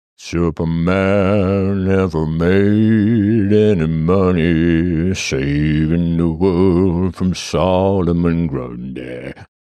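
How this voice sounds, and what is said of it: Deep voice. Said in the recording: “That guy's got a deep voice.”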